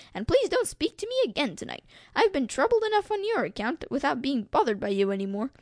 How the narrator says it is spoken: Freddy told him impatiently

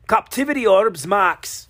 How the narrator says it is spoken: Logan shouted

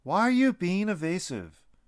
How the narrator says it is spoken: Lucas stood his ground and yelled

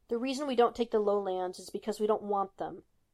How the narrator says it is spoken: Tony snapped

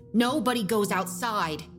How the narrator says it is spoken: snapped

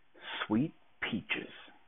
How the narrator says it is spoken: whispered

